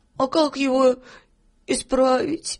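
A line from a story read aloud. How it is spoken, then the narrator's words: Sobbing question. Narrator (Russian): спросил всхлипывая Филька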